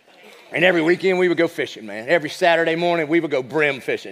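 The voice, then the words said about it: American Southern accent. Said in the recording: “you can tell by my accent, I grew up in the South. Not like Southern California, but like the actual South.”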